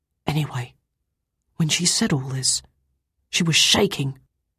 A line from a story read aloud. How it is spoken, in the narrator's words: Tommy said, almost in a whisper